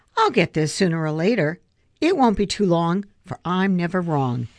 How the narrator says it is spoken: Sighing

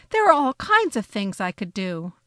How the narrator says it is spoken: I exclaimed

